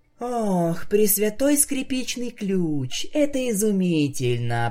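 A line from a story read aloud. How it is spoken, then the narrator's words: Moaning. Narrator (Russian): простонала Октавия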